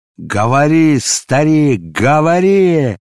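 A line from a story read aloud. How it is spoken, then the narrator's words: Furious shout. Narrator (Russian): закричал он яростно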